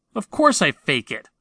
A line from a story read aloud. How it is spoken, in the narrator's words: I snapped